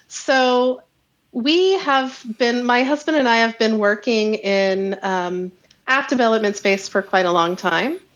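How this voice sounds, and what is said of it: American accent. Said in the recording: “you can tell from my voice, a transplant from the U.S.”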